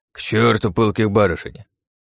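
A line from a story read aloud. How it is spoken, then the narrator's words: Old man's angry huffing. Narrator (Russian): Дед сердито засопел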